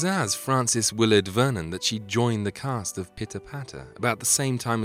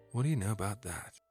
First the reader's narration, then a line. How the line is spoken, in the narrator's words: he said quietly